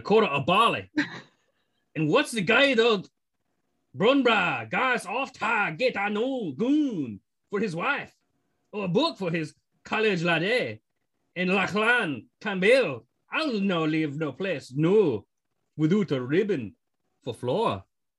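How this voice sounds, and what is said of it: Shifting British, Scottish, American accents. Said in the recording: “I heard a little bit of a British accent. And then you turned Scottish, and then some American accent came out, and then you kind of went nonverbal Scottish, and then there was some British in there.”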